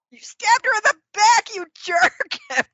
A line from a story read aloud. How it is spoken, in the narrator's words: Emily yells